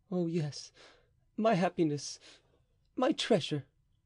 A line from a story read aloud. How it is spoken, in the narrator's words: murmured the king, more gallantly than passionately, perhaps